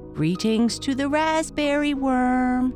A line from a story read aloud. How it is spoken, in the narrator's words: said Otto mockingly